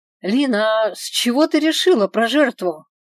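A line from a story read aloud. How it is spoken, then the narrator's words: Shouted from another room. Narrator (Russian): Из ванной, где я приводила себя в порядок, крикнула я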